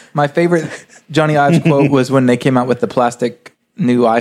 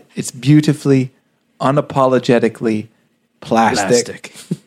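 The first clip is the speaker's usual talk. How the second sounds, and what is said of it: Fake British Jony Ive impression. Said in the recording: “my fake Johnny Ive accent ... with that accent, with that voice ... There's nothing worse than a bad British accent”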